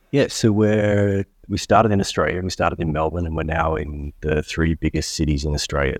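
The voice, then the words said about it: Distinct regional accent. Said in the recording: “with your accent, it's probably clear”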